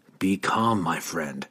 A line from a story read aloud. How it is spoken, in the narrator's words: he whispered